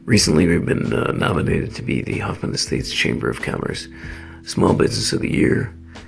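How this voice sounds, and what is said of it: Slightly raspy voice. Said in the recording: “I'm a little raspy”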